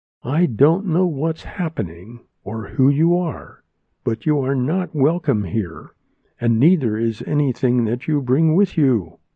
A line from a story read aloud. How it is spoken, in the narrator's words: Maya said to the woman, slowly and very clearly